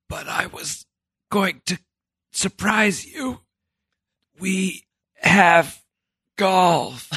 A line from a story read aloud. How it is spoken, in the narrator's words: Sullivan had whispered to Billy